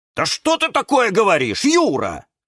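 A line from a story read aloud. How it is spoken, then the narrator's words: Many voices shouting. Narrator (Russian): закричали все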